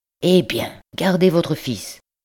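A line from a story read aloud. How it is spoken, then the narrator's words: Brusque. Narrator (French): dit-il d'un ton brusque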